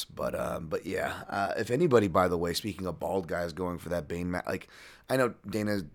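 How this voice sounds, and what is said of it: Worn-out, strained voice. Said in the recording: “I have a terrible voice this week, obviously from fucking just talking to everybody and their mothers ... I have no voice left”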